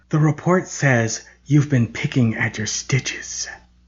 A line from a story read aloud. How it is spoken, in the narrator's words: In a raspy whisper, she said